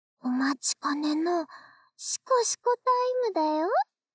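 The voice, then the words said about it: Whispering close to the ear. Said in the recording (Japanese): “また耳元で、シコシコ囁くね。”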